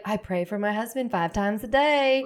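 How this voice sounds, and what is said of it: Put-on Southern accent. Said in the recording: “Sorry for the Southern accent.”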